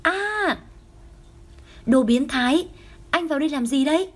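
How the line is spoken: Shocked loud scream. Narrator (Vietnamese): Đường Tinh Khanh sững sờ một lúc, theo đó cô hét to

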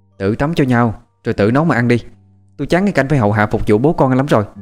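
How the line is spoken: Angry outburst. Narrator (Vietnamese): Hồ Ngọc trút cơn tức giận

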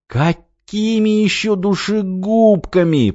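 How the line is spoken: Groan. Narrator (Russian): простонал Петрович

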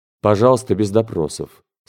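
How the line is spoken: Dry, curt. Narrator (Russian): сухо сказал

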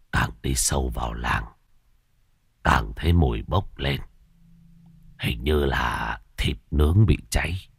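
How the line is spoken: Old beggar muttering. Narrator (Vietnamese): Lão ăn mày lẩm bẩm

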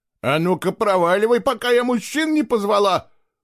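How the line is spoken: Woman shouting. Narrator (Russian): прокричала женщина

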